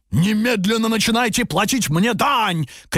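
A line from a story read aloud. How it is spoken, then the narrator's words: Ogre shouting. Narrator (Russian): кричал людоед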